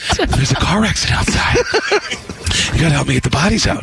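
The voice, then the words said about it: Heavy breathing, few words at a time. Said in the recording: “And breathing heavily. ... Breathing heavily. ... It's just heavy breathing. Say a few words at a time. ... my other bad impression”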